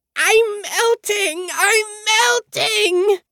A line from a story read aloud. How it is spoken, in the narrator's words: the Wicked Witch of the West screeching